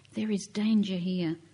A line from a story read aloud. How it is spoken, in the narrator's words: Fear in their eyes, the women whisper